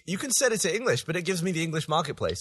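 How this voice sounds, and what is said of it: British accent. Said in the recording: “my funny British accent”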